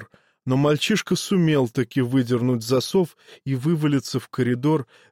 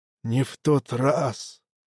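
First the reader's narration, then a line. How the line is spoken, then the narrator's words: Soft interruption, dead man. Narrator (Russian): мягко перебил мертвяк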